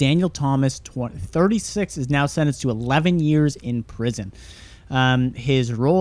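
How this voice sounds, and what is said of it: Usual voice. Nothing is said of it.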